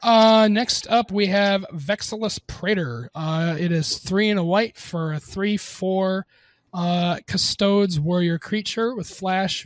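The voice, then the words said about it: Slightly raspy sick voice. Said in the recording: “I'm also a little sick, so my voice might get a little raspy”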